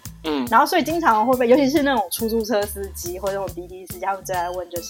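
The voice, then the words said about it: Taiwanese-accented Mandarin. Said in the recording (Chinese): “我们那个口音很明确，就被人家以为，就人家就听得出来就是台湾的或就港台的那种嘛”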